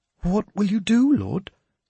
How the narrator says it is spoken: Beedwulf asked me nervously

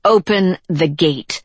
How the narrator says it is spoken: she said through clenched teeth

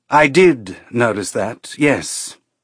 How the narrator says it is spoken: Trejo said dryly

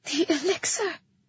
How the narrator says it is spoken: I breathed

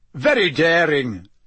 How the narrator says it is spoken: Bagman was yelling

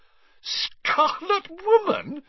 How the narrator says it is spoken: she repeated, shaking with suppressed giggles

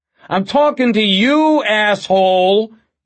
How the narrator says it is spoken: the detective boomed

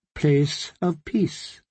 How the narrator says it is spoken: his voice was gentle

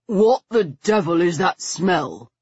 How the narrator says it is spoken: he demanded in a thick voice

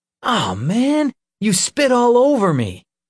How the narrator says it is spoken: Nick cried

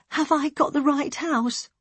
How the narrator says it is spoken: she asked in a small, quivering voice

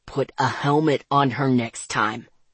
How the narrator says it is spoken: he growled

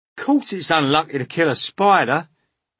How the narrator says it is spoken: shouted the centipede

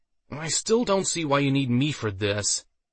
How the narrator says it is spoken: Waldo whined

